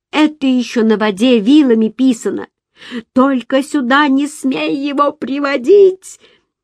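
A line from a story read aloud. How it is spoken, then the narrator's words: Sudden tearful shout. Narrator (Russian): закричала она вдруг ... заплаканное лицо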